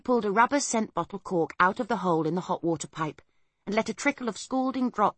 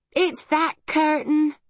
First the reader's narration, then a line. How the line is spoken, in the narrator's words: cried Homily